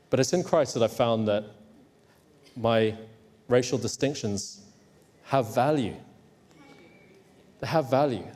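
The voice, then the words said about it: Educated English accent. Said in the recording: “my nice, educated, odd accent ... they've pretended that I'm English”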